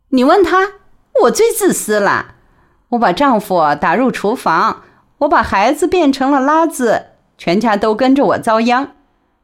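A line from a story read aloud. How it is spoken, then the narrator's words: Laughing. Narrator (Chinese): 陆文婷笑着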